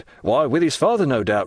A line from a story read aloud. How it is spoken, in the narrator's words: replied Danglars